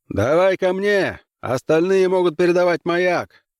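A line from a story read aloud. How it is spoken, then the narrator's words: Shouted, captain. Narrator (Russian): прокричал капитан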